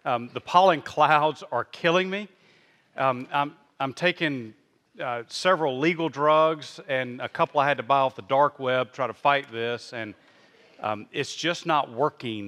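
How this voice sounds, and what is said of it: Rough, scratchy voice. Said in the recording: “if my voice is a little bit rough ... this stuff that's caught in my throat”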